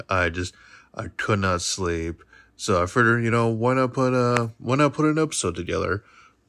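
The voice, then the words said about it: Tired, low-energy voice. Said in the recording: “I sound a little tired”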